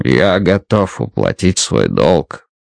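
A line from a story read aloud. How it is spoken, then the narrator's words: Quiet. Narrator (Russian): сказал он тихо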